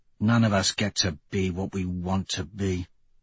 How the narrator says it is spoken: Severo mutters

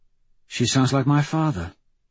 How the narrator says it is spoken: Mustang says softly

